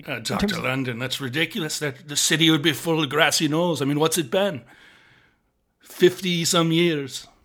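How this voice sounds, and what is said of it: Irish accent. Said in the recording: “from your accent, it sounds like you're probably from across a pond ... Ireland's chock full of grassy knolls.”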